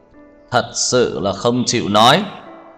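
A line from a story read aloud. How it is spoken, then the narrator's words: Raised, cold, angry question. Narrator (Vietnamese): Tưởng Thiên Lỗi cao giọng, lạnh lùng, tức giận hỏi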